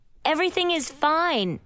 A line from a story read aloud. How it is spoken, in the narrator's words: I said, yelled